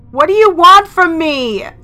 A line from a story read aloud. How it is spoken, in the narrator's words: I yelled